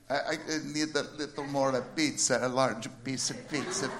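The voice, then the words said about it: Put-on Italian accent. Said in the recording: “Italian. ... I do these accents.”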